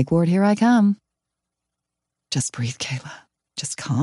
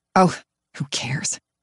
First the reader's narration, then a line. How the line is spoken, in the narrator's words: I mutter